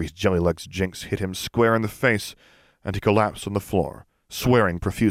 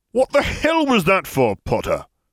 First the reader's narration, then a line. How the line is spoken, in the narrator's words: Smith spat